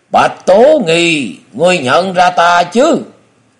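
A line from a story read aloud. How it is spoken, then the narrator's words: Loud, laughing. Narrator (Vietnamese): tiếng cười của Chu Nhất Cuồng, nói lớn tiếng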